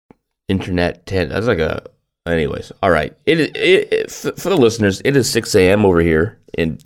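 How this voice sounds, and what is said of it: Groggy morning voice. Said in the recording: “weird voice. You have the morning voice.”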